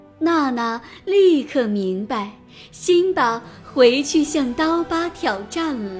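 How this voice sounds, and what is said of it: Usual voice. Nothing is said of it.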